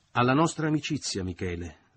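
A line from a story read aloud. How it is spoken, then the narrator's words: Plain. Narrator (Italian): disse finalmente Leo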